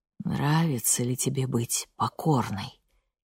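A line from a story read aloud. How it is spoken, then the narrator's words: Quiet question. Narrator (Russian): тихим голосом спросил Йоун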